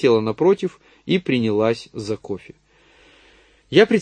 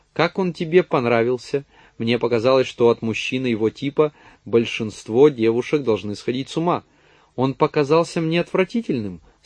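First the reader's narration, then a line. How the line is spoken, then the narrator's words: Cold, even tone. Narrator (Russian): сказала холодным, ровным тоном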